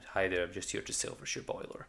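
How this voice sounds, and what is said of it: Briefly puts on a different accent. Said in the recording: “Why I would say it in that accent, I don't know.”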